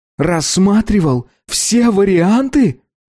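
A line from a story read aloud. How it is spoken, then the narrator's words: Half-shouting. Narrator (Russian): более-менее кричал Билли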